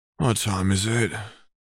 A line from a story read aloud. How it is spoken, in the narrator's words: Sirius groaned